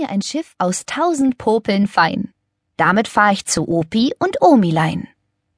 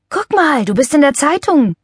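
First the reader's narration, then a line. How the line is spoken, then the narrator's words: Called out. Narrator (German): rief er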